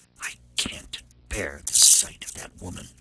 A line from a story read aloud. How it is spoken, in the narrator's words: she whispered